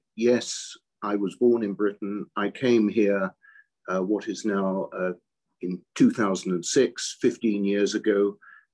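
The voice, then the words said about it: British accent. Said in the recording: “I've got a British accent ... my accent remains British”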